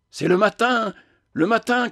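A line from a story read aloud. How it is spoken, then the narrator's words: Shouted. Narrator (French): criai-je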